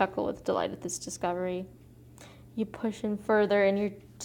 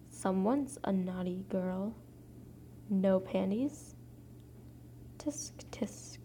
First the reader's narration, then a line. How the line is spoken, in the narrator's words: whisper in my ear